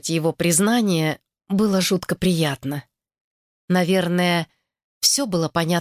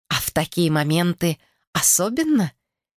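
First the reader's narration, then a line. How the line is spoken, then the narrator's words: Giggling. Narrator (Russian): хихикнула она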